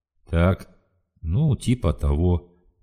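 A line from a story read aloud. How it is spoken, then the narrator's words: Sigh. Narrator (Russian): вздохнул Хромой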